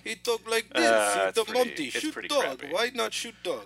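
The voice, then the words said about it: Put-on Russian-Ukrainian accent. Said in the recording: “he's doing this Russian-Ukrainian accent. ... It's not bad.”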